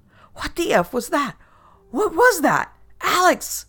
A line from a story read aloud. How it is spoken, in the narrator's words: My friend kept screaming